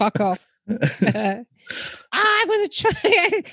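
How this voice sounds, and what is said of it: Usual voice. Nothing is said of it.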